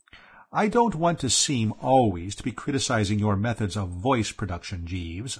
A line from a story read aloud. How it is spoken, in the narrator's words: I said